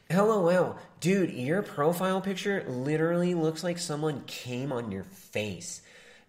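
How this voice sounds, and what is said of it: Nasal Vegan Gains voice impression. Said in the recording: “You got to do the Vegan Gains voice. You got to do full nasal Coomer voice.”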